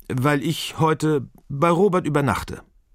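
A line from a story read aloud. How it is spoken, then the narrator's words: Stammer. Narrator (German): stammelt Ferdinande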